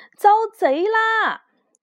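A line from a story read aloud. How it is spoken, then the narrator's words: Panicked shouting. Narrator (Chinese): 客栈伙计慌张的到处大喊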